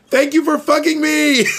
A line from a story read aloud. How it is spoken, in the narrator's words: he was yelling